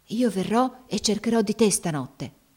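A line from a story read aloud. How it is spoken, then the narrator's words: Whispered. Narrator (Italian): le sussurrò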